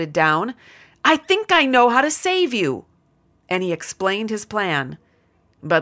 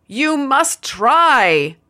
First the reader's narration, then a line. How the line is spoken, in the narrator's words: the other shouted back in tears